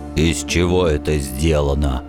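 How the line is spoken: Gruff grunt. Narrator (Russian): наконец буркнул он

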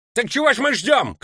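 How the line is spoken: Shouted. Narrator (Russian): крикнул Ставра

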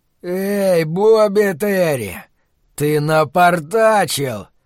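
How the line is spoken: Roaring. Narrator (Russian): проревел темный человек

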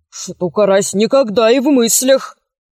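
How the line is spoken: Mumbling. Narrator (Russian): промямлил Копчиков

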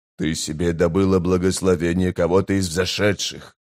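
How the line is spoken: Hissing whisper. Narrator (Russian): шипящим шепотом заявил быстрый Бен

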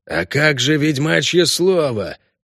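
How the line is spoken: Hoarse orc shout. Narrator (Russian): хрипло выкрикнул орк Сатера

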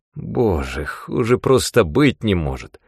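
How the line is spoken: Groaning. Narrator (Russian): застонал

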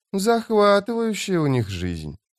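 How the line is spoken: Drawled. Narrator (Russian): протянула Фелисин

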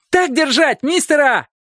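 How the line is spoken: Boy shouting. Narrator (Russian): Какой-то парнишка закричал

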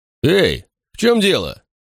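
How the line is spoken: Barked. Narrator (Russian): рявкнул

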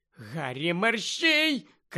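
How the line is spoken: Shouted from within crowd. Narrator (Ukrainian): крикнула Герміона десь зсередини юрби

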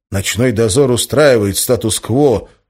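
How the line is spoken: Gloomy. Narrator (Russian): мрачно произнес Валентин

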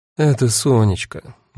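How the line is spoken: Gloomy. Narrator (Russian): мрачно сказала Дита

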